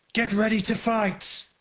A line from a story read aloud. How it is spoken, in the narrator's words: he shouted like a lion